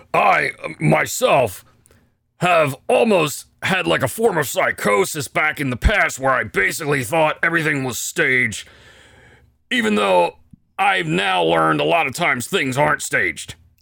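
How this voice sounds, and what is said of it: Impression of a man's voice. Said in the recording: “Let me do it like him. ... while you're doing that voice”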